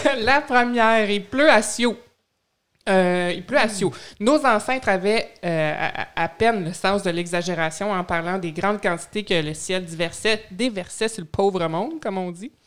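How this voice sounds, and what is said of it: Québécois French accent. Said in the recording (French): “je vais user de mon accent québécois”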